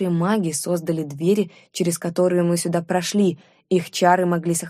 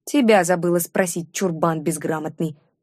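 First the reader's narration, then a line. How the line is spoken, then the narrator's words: Contemptuous snort. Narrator (Russian): презрительно фыркнула я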